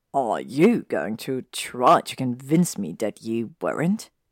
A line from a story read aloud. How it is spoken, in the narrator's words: asked, snorting